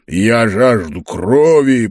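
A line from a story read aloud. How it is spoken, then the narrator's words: Growling. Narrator (Russian): прорычал он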